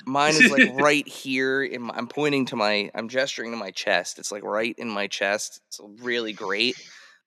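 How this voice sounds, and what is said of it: Slightly squeaky voice with a cold. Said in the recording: “That was a squeaky hello, everybody. I have a little bit of a cold”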